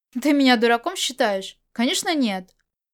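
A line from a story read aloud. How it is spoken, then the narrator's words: Laughing. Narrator (Russian): Можань рассмеялся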